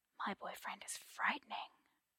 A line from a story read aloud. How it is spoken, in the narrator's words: Arthur mock whispers